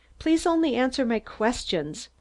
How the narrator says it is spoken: Kirkpatrick rebuked me sharply

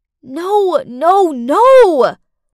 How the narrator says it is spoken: I screamed inside my head

